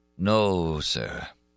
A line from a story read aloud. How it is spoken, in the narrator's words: said the Persian sadly